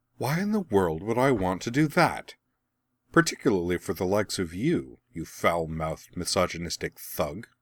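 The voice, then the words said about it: Coolly dismissive character voice. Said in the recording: “quite a good impression of Azula's coolly dismissive voice”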